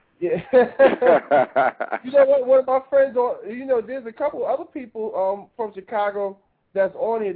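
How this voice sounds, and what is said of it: New York accent. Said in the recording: “I'm from New York originally... We can tell from your accent.”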